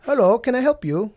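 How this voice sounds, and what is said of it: Put-on weird accent. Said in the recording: “He has like a weird accent.”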